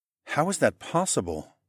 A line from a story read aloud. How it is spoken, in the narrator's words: asked in a calm voice